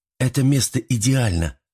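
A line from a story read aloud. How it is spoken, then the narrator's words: Exclamation. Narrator (Russian): воскликнула Мари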